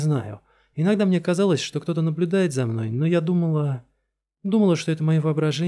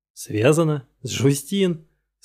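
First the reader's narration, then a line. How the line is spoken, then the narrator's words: Nervous chuckle. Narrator (Russian): Скинта нервно хохотнул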